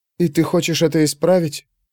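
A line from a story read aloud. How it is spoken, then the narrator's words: Barely audible whisper. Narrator (Russian): едва слышно шепнула она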